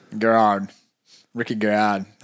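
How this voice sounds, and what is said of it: Bad put-on Australian accent. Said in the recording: “That was a terrible Australian accent.”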